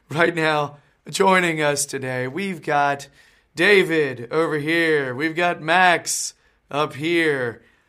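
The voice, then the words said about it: Voice still weak from illness. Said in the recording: “I'm still sort of sick. My voice isn't all the way back”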